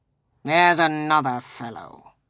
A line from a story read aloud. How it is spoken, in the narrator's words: muttered Scrooge, who overheard him